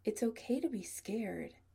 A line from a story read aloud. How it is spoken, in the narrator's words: Adam says kindly